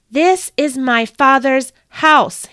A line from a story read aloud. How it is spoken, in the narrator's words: he screamed